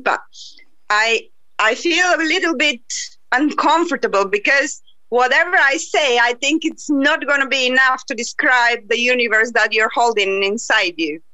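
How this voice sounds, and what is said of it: Non-native English accent. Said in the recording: “Excuse my accent”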